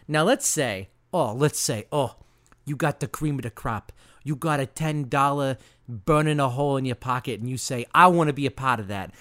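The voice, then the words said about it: Put-on accent. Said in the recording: “accent like I'm putting on now. I'm going to drop the accent.”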